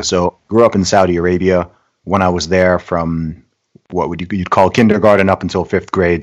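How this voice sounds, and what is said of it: Hybrid British-American accent. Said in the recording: “accent probably thinking you're American, but as I know, you're British, but you just got a bit of a hybrid accent”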